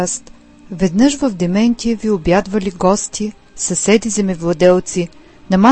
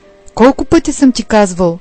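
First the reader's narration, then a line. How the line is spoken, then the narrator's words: Angry. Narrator (Bulgarian): сърдито казал той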